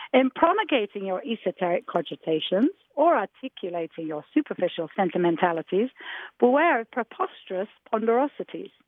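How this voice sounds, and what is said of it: Put-on English accent. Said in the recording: “in my English English accent”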